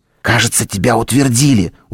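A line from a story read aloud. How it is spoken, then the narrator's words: Loud whisper, young girl. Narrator (Russian): громкий шепот девочки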